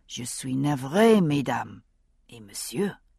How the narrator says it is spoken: he added softly to Roger

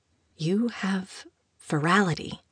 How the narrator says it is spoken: she whispered, just to test him

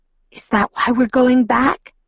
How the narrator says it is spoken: I whispered

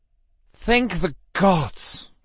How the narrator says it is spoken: Justin breathed

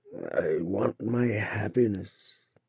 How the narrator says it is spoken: at last he murmured, hoarsely and indistinctly, hardly shaping out the words

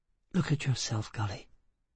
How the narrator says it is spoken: she said quietly

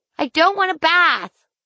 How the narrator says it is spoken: I screamed

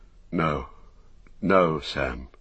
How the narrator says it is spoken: he said sadly

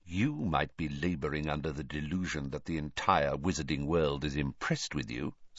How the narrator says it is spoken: Snape went on, so quietly that no one else could hear him

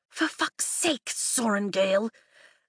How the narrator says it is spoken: Kat hisses

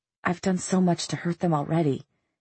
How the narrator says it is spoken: he whispered

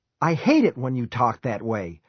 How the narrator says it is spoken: Nate exclaimed, but still too stubborn

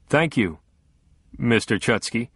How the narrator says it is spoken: Matthews said stiffly

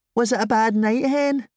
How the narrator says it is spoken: She asked, in her high, childlike voice

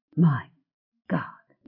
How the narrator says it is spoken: he whispered

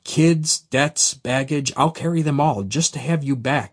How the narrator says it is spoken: I begged

